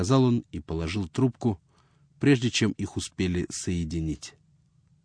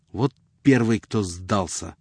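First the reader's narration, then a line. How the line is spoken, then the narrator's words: Irritated. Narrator (Russian): заметил он раздраженно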